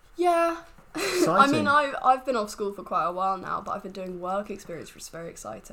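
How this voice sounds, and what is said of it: Congested voice from a cold. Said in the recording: “I have a cold,... A little bit poorly”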